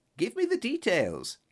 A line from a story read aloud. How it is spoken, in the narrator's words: cried impatiently